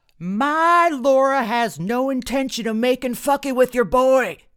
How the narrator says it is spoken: he screamed

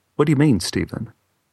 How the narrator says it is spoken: in a very calm voice said

